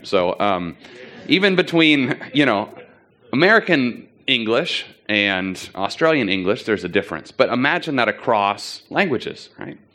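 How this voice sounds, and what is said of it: Unusual non-native English accent. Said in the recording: “you can probably tell I have a weird accent”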